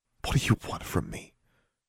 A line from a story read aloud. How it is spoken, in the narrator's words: She whispered